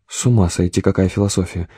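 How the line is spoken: Sad smiling voice. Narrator (Russian): улыбнулся она грустно

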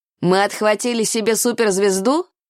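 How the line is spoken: Laughing. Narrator (Russian): смеялся он

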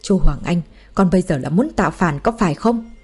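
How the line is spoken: Furious hiss. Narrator (Vietnamese): Ông Chu hoàn toàn nổi giận, với một tiếng rít lớn

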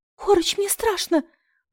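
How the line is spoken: Whimpering, frightened. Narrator (Russian): проскулила я

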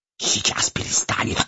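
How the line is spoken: Spider's spiteful hiss. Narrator (Russian): Злобно зашипел паук

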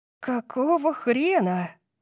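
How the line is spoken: Breathed into ear. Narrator (Russian): Тори выдохнула мне в ухо

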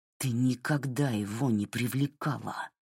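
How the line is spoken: Through gritted teeth. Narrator (Russian): процедил Джей Ар

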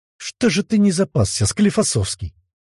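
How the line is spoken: Angry question. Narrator (Russian): сердито спросил Демидов

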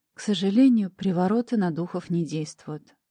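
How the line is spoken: Sighing. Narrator (Russian): вздохнув, произнесла я

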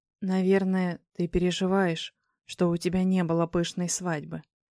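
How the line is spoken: Whisper. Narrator (Russian): шепнул мне Александр

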